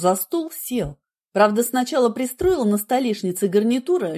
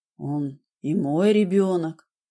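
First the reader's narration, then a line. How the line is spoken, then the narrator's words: Quiet reply. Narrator (Russian): тихо ответил он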